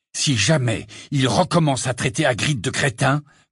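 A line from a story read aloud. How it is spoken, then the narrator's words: Angry growl. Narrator (French): gronda Harry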